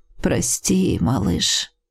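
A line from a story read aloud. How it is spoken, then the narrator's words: Sighing. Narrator (Russian): вздохнул отец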